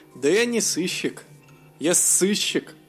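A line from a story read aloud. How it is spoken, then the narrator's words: Laughing. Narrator (Russian): Засмеялся детектив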